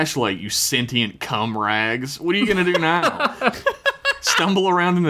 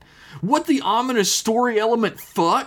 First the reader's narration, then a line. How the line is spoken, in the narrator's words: He exclaimed